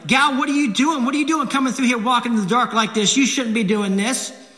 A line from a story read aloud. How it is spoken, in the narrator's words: he's yelling at my grandmother